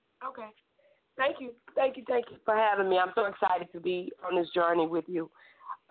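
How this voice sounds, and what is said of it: Raspy voice. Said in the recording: “my voice is not too raspy.”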